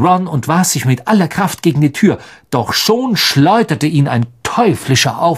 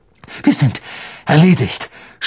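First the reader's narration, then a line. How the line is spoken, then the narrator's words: Despairing groan. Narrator (German): stöhnte er, als das Dach einbrach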